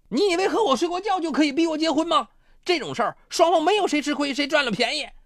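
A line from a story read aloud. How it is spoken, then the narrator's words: Furious roar. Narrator (Chinese): 陈卫华气急败坏的怒吼道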